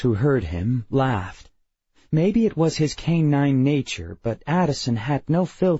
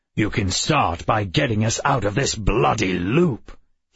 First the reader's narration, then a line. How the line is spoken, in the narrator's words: he growled